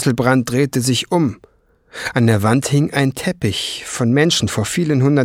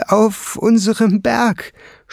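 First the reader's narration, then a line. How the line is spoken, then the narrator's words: Stammering dwarf. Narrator (German): stammelte der Zwerg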